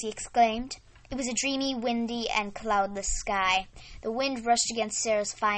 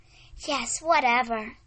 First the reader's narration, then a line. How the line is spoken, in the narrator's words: Sarah dreamily said